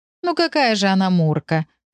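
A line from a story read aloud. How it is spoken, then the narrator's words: Laughing. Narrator (Russian): рассмеялась Марина Сергеевна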